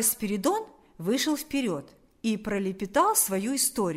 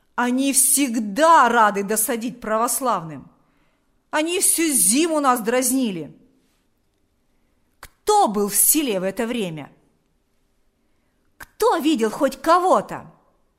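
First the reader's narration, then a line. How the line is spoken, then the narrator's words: Shouting. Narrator (Russian): закричал Шила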